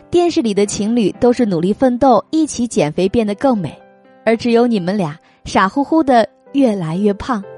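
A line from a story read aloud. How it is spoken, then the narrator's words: Friends laughing. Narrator (Chinese): 朋友几个笑道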